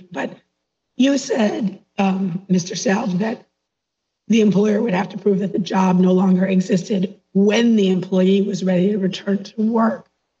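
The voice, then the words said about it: Weak voice from a cold. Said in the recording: “I have the end of a cold, so my voice is weak.”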